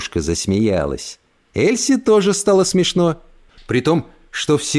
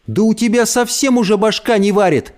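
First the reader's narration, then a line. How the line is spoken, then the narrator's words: Shouting. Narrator (Russian): закричала Эльса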